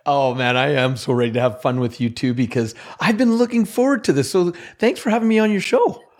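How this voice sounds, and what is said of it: Slight Canadian accent. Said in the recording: “I heard a little bit of an accent when you said show ... I'm Canadian”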